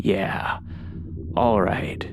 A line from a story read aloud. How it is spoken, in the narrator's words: the creep slurred